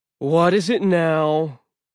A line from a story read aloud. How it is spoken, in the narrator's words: he sighed